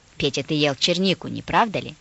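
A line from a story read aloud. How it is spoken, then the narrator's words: Grandmother asking sternly. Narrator (Russian): спросила строго бабушка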